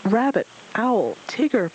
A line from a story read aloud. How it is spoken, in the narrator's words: Pooh cried